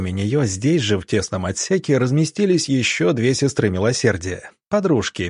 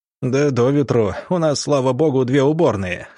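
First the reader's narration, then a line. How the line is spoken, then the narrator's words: Chuckling commandant. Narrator (Russian): хохотнул комендант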